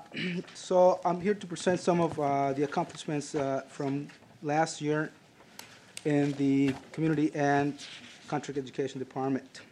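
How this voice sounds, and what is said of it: Strained, hoarse, fading voice. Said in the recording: “losing my voice”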